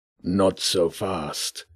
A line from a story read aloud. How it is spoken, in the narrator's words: he said, his voice a growling murmur